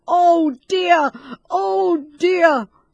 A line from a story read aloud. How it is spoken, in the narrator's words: screamed Master Schultz